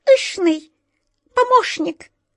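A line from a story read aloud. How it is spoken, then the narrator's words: Stern squeak. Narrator (Russian): сурово пропищала желтая мышь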